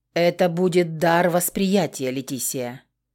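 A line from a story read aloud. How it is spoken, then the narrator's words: Muffled speech. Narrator (Russian): стал глухо говорить Бронзовый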